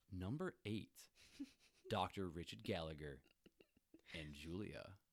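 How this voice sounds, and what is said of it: Quirky countdown announcer voice. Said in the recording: “my best Watch Mojo impression ... off-color and quirky announcer”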